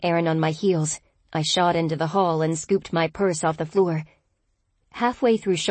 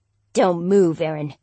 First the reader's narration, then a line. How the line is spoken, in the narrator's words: Tom snarled